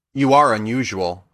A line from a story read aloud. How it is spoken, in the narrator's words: replied Glinda